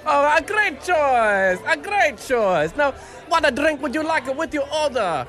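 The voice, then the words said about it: Put-on Italian waiter accent. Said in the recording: “Went out to an Italian restaurant last night ... I've never seen someone put on an accent of the particular restaurant they're working at ... Listen to the guy's accent”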